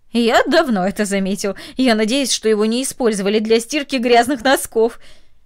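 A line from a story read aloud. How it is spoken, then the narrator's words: Laughing, then speaking. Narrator (Russian): Ее сосед засмеялся и сказал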